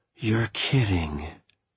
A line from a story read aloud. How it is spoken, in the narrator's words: I said with a sigh